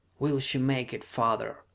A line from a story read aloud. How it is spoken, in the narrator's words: queried Sarka in a whisper